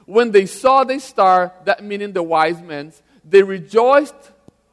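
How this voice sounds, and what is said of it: Brazilian-accented English. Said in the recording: “There is words in English and I can't pronounce ... I'm from Brazil, have an accent, if you notice right now. And there's some words in English I can't not pronounce, no matter how hard I try.”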